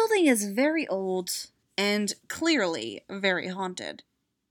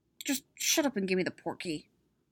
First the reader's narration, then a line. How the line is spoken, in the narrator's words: mutters